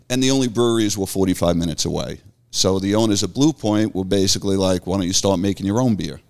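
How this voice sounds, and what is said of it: Long Island New York accent. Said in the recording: “I moved here from Long Island, obviously with the accent”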